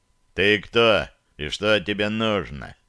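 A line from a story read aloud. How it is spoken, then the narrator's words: Offended sigh, booming bass. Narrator (Russian): как-то обиженно вздохнул и раскатистым басом спросил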